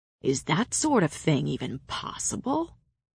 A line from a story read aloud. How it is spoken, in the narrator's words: Cassian murmured